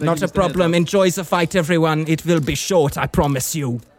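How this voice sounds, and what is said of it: Shifting mixed foreign accents. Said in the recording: “Amazing, amazing accent work there by ... You know, he was Hungarian, German, South African, and then generically Asian.”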